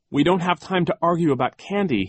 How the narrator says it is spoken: cried

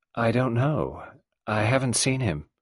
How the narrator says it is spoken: She answered in her gentle, expressionless voice

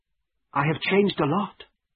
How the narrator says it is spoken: she answered

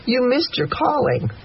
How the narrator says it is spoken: Mama sighs

